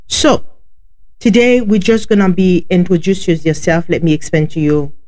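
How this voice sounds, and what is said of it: Heavy foreign accent. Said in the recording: “I have a heavy accent”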